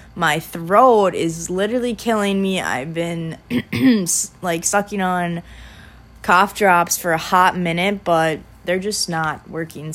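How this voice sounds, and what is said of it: Sick, sore-throated voice. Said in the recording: “I sound a little sick.”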